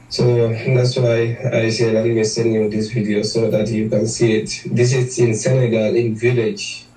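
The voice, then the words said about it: Non-American accent. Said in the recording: “You hear the accent? This ain't nobody in America.”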